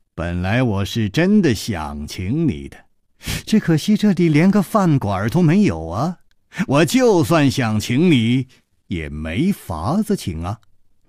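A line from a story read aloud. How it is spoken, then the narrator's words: Laughing. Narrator (Chinese): 陆小凤也笑了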